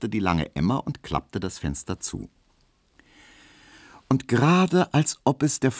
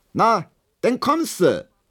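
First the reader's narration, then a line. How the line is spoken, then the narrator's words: Calling out. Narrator (German): rief Hedwig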